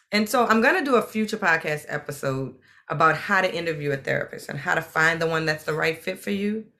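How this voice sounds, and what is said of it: New Orleans accent. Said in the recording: “you haven't picked up on the accent, I am New Orleans”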